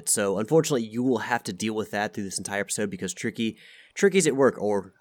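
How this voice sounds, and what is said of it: Stuffy congested voice. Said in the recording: “I am very stuffy, and I sound like a Muppet.”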